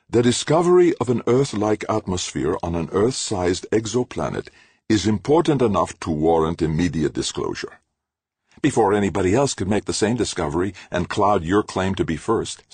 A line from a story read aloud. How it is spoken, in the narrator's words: Ciri said